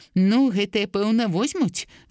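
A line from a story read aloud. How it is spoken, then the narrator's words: Laughing. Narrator (Belarusian): засмяяўся Паўлік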